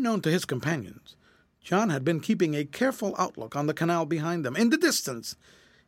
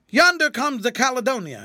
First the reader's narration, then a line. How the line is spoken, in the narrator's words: exclaimed suddenly